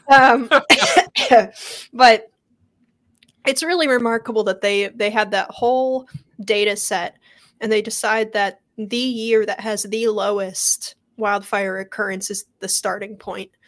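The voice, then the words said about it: Rough, sick-sounding voice. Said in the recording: “my voice is terrible today, you guys. I went to DC last week and I caught, I don't know, like swamp disease or something.”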